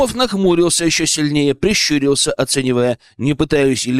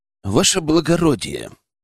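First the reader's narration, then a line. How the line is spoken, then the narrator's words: Through gritted teeth. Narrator (Russian): процедил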